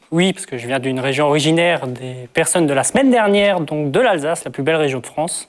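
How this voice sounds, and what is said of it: Slight Alsatian French accent. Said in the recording (French): “Vous avez un petit accent, quand même.”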